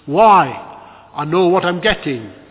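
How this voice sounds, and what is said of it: Broad Lancashire accent. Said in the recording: “the groom replied from the front of church in a broad Lancashire accent”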